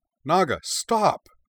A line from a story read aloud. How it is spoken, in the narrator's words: she cried